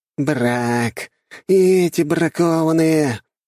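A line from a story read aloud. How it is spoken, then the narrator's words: Loud irritated groan. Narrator (Russian): не скрывая раздражения, громко простонал парень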